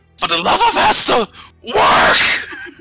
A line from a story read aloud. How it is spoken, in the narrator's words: Kenra's gonna just shout